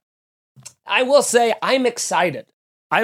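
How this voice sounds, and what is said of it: Usual voice. Nothing is said of it.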